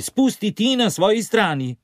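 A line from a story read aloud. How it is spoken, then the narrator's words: Shouting back. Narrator (Slovenian): ti vpije nazaj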